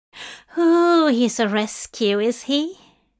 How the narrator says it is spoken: Linda sighed in a tone of utmost understanding

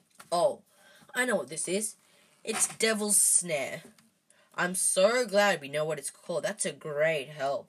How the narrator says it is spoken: snarled, leaning back, trying to stop the plant curling around his neck

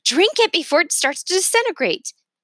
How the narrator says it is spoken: Ingrid shouted

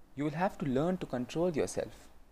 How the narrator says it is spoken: he said gently

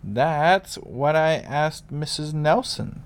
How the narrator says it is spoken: said Pa

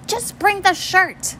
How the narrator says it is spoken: Mom snapped

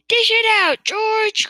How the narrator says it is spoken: cried Mr

